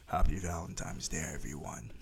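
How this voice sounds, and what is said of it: Put-on sexy voice. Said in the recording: “That was supposed to be my sexy voice”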